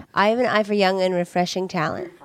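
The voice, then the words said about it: Imitates another person's voice. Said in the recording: “That was pretty good. ... Awesome impersonation.”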